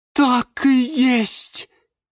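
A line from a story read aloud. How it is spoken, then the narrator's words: Exclaiming. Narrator (Russian): воскликнула герань Антонина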